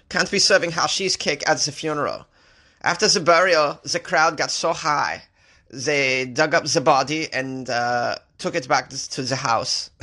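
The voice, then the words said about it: Put-on German accent, needs improvement. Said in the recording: “I'm just practicing a German accent, which I need to improve upon”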